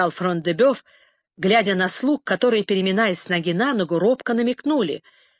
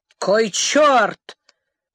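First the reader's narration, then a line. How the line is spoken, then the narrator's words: Shouted. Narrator (Russian): крикнул Фрон-де-Бёв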